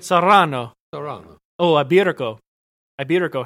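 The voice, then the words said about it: Spanish word in Italian accent. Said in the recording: “I think I'm saying that with an Italian accent. ... You are actually. You're mixing your languages here.”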